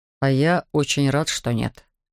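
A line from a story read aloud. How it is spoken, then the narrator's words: Gruff mutter. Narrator (Russian): буркнул Эндрю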